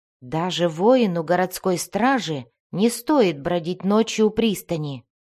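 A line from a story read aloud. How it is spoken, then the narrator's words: Plain. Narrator (Russian): ответил Джиэрдан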